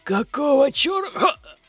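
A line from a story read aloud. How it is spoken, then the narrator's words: Voice breaking into wheeze. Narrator (Russian): Голос Громилы прервался хрипом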